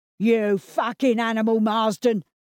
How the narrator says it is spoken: bellowed Gerald

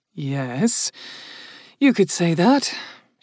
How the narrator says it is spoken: she muttered

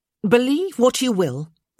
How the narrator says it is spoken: Francesca said sharply

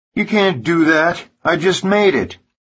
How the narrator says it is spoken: screaming

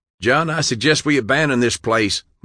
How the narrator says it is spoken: Maury shouted

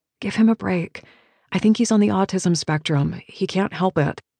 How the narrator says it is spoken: I whisper

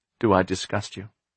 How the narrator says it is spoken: Anxiously, she said

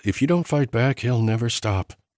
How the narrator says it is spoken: Nina said quietly

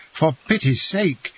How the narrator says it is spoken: he cried, pale and bewildered

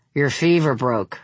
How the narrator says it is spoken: her father said

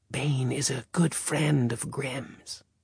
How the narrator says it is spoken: Asmodeus whisper in his ear

